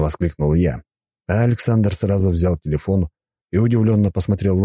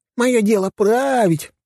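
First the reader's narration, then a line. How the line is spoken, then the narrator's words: Mocking squeaky voice. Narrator (Russian): передразнил его писклявым голосом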